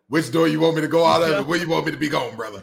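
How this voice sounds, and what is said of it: Poor impression of Coach O. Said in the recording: “terrible Coach O impression”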